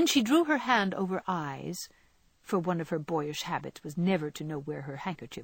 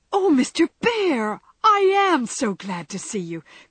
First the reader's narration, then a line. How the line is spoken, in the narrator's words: cried, with a clutch, as if she feared the night would swallow him up before she could get him in